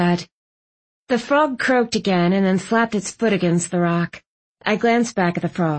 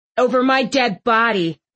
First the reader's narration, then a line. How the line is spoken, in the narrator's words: Thistle snapped